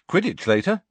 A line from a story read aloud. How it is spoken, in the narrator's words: said Harry happily